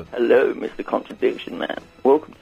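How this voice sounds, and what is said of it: Radio presenter voice. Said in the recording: “put on the old radio voice”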